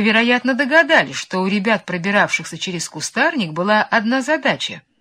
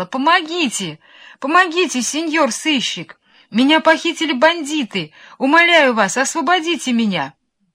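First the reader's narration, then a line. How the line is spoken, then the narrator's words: Girl's thin-voiced shouting. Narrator (Russian): девочка тоненьким голосом кричала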